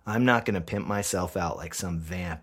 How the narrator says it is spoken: I growl

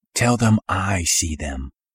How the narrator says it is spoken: I whispered

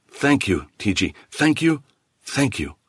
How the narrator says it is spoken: he said

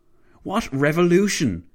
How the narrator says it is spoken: Clavel barked

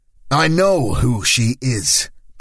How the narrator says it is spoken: Paolo snapped

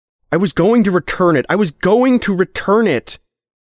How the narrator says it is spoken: Henry yelled

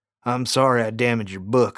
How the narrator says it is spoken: I said

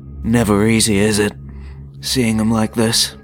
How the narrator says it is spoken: The Annihilator sighed in his baritone voice

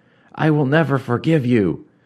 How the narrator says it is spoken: Rigret cried, finally spent and exhausted

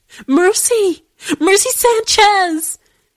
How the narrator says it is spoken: sobbing

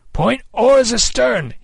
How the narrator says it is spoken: he cried

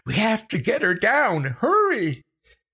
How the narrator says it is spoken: Becca shrieking

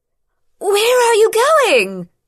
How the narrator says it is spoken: she shouted after Rihan, loudly enough to be heard despite the damage to their hearing

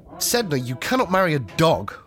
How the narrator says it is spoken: he exclaimed

